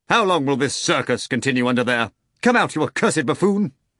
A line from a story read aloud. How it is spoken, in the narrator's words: shouted